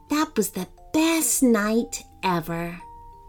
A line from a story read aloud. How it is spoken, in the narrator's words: As she finally began to drift off to sleep herself, could be heard to murmur